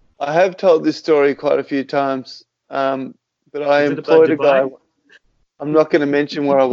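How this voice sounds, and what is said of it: Usual voice. Nothing is said of it.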